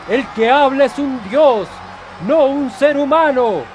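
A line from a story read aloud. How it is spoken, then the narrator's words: Crowd shouting. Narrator (Spanish): El pueblo gritaba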